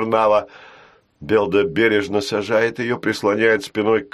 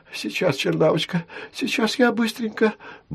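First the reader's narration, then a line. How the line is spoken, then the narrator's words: Muttering. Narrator (Russian): бормочет он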